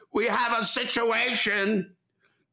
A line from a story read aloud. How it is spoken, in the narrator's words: She shouts out